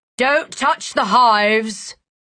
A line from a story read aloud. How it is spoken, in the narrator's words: the adult shouted